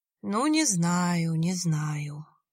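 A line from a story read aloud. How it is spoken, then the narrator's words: Sighing. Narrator (Russian): вздохнул Виталий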